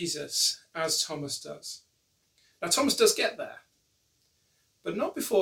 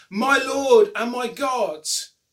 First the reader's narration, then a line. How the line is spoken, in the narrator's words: John wants all his readers to exclaim